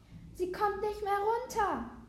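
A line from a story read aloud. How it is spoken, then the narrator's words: Fearful call. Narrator (German): rief Lea ängstlich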